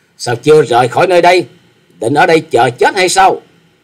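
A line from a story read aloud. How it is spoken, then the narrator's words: Angry young woman shouting. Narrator (Vietnamese): Thiếu nữ áo đỏ nổi giận hét to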